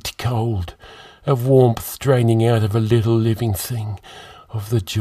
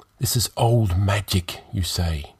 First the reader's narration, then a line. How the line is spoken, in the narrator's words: he whispered